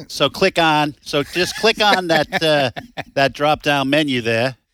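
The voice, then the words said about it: Boston accent. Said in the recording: “making fun of my Boston accent... Boston accent”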